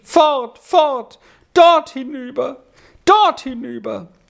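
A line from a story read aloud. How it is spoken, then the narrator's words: Sudden overwhelming outburst. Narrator (German): Und plötzlich überkam es den Sami mit Gewalt und er rief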